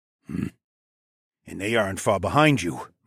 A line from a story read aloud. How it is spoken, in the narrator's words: Mael grunted